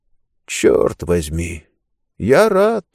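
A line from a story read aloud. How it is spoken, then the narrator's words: Quiet. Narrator (Russian): тихо проговорил он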